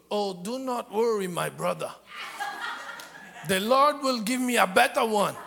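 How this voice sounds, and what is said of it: Put-on thick African accent. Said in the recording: “very thick African accent”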